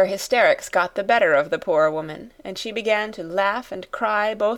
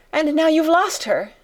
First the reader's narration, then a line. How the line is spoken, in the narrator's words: she cried wildly